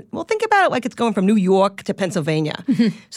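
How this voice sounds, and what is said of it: Quintessential New York accent impression. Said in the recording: “in his quintessential New York accent”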